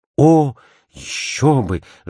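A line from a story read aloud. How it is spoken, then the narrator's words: Ardent exclamation. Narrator (Russian): с жаром воскликнул Мастон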